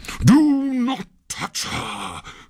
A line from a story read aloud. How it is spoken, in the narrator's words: cried Pluto in a terrible voice